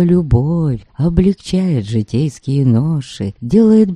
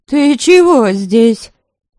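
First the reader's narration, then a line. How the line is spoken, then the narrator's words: Stern old woman snapping. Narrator (Russian): Строже обычного прикрикнула на Воротиславу старая воеводша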